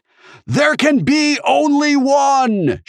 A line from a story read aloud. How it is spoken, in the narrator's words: she shouted